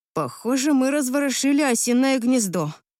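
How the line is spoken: Sigh. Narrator (Russian): вздохнула я

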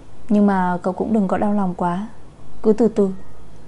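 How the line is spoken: Sighing. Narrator (Vietnamese): Tô Tích thở dài

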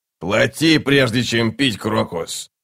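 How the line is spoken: Insolent grumble. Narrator (Russian): проворчал нахал

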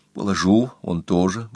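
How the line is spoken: Whispering. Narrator (Russian): говорил шепотом

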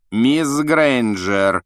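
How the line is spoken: Icy rebuke. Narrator (Russian): ледяным голосом осадил Гермиона Снег

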